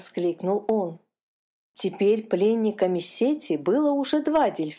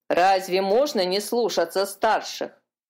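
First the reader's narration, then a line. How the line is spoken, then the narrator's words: Grumbling gull. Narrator (Russian): проворчала серая чайка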